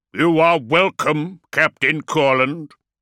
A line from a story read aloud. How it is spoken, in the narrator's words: said Beaumont, his voice booming across the hall